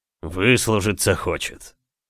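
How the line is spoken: Wry snort. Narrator (Russian): хмыкнул адмирал

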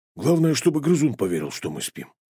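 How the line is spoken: Muttering. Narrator (Russian): буркнул он

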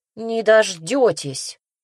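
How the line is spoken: Grumbling. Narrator (Russian): буркнула

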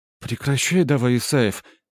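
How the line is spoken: Girl's exasperated cry. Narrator (Russian): вскрикнула, не выдержав девушка

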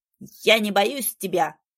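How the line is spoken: Shouted. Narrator (Russian): выкрикнул тот

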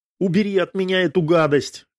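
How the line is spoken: Shout. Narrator (Russian): крикнула Ольга

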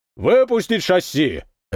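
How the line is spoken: Barked. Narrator (Russian): рявкнул старпом

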